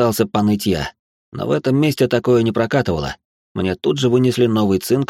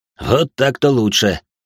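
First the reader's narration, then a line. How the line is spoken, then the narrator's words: Grunting chuckle. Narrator (Russian): хмыкнул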